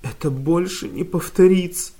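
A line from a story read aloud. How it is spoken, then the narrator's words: Sobbing. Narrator (Russian): всхлипывала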